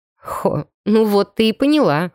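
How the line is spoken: Snorting. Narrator (Russian): хмыкнул Костя

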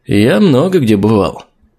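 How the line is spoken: Vague. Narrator (Russian): неопределенно ответил я

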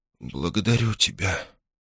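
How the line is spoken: Whisper. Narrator (Russian): прошептала она

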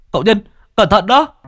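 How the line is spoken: Sudden cry. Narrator (Vietnamese): Bạch Hổ bỗng nhiên kêu lên

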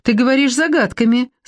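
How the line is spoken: Laughing. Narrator (Russian): засмеялась

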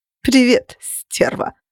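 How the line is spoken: Laughing, insinuating purr. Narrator (Russian): рассмеялась, вкрадчиво мурлыча

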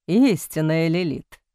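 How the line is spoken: Moan. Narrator (Russian): простонал Бастиан

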